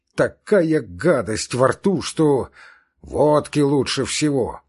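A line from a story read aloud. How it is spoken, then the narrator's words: Deep bass voice. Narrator (Russian): пробасил Яшвин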